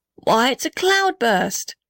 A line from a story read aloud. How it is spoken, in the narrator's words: shouted the blue gum